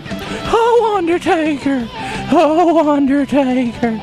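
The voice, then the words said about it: Paul Bearer impression. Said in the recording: “I do it pretty good under Paul Bearer impersonation.”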